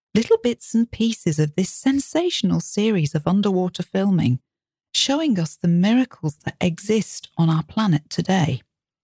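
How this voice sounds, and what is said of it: British RP accent. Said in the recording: “Joanna Lumley speaking in her RP accent”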